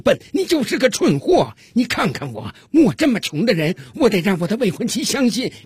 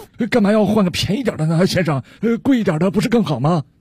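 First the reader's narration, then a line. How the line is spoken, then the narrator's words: Plain. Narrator (Chinese): 强盗听了老板的话，回答道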